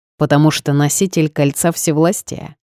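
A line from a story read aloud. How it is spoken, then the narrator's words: Snorting. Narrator (Russian): хмыкнул босс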